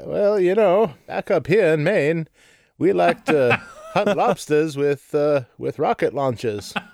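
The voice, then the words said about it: Put-on stereotypical Maine accent. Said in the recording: “we should all adopt our, our uh, stereotypical accent for our region ... main one”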